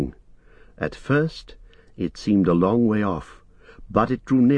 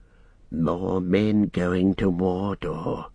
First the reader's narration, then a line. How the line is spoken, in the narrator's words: he said in a low voice